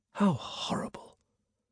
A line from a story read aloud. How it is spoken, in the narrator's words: he whispered